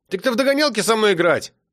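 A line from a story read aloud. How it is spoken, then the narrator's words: Shout. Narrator (Russian): крикнул Сережа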